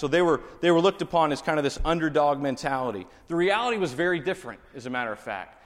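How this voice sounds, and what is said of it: Texas accent. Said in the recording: “I'm from Texas. I've been there my whole life, and I have this accent that sticks with me. It won't leave.”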